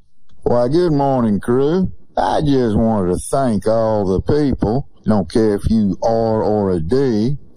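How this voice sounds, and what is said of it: Mississippi accent. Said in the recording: “he doesn't even have a Mississippi accent. Oh, but he does.”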